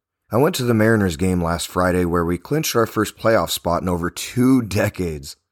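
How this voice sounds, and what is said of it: Rough, strained voice. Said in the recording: “You may have noticed by now that my voice is sounding rough... screamed my head off for a solid hour, so you can say that I left my voice back at the ballpark.”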